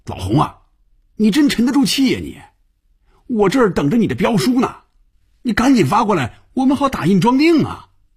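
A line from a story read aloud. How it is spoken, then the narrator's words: Very loud shouting. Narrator (Chinese): 范宇宙冲红军大声喊着，连坐在对面的菲比都能听得见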